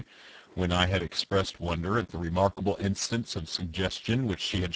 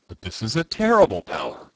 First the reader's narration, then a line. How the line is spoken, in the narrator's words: I cried